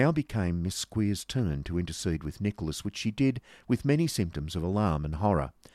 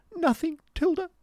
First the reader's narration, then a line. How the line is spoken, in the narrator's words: replied Miss Squeers, sobbing